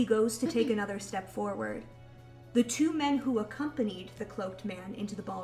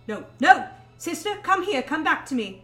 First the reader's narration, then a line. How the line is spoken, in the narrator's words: Andrew shouts